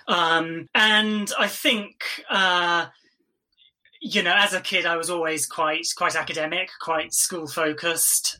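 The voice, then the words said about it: English accent. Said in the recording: “as you can tell from my accent, I'm sure I, I grew up in England”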